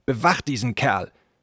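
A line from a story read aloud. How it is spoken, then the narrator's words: Snapping. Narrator (German): schnauzte er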